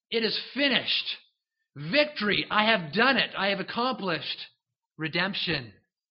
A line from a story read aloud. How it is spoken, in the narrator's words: Jesus shouts out